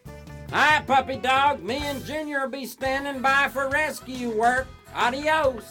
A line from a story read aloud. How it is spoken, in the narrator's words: I heard him yell